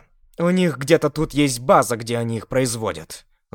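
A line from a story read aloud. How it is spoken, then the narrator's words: Angry, irritated. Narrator (Russian): злобно и раздраженно сказала Мира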